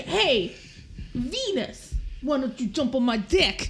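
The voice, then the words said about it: Exaggerated put-on New York accent. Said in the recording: “offensive New York accent? ... it's like Newsies level. It's like Christian Bale in Newsies. It's so offensive.”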